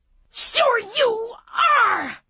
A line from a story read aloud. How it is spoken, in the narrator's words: she screamed